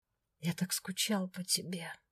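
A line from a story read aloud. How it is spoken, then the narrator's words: Whisper. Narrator (Russian): прошептал он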